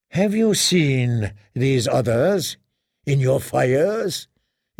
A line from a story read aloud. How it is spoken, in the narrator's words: asked wearily